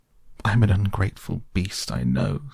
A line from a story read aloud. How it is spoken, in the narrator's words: sobbed the Toad, shedding bitter tears